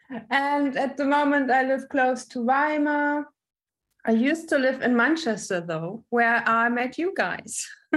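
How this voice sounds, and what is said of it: German accent. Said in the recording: “I'm from Germany. You can probably hear it on my accent.”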